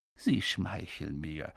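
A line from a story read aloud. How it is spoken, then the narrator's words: Said softly. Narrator (German): sagte Dumbledore leise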